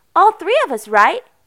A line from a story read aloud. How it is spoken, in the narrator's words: Erica exclaimed happily